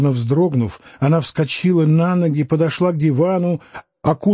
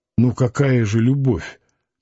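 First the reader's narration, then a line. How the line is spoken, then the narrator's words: Mutter. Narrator (Russian): пробормотал Самгин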